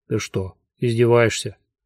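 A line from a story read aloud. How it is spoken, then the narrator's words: Dry question. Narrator (Russian): сухо спросил Кофа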